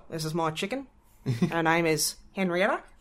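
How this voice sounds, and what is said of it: Sam Neill impression. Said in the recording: “My perfect Sam Neill impersonation. Because, you know, not a lot of people realize he's an Aussie.”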